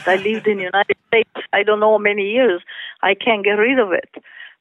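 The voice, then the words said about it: Italian accent. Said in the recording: “your lovely Italian accent”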